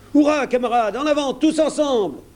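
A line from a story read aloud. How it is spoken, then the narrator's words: Exclaimed. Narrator (French): s'écria Mary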